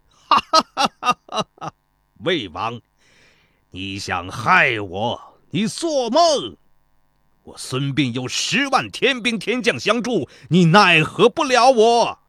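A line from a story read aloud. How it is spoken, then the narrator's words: Sudden roaring laughter. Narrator (Chinese): 孙膑突然又大笑起来，说道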